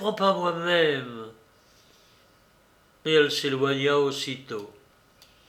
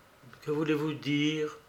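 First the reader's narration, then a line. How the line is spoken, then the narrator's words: Murmured. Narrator (French): murmura-t-elle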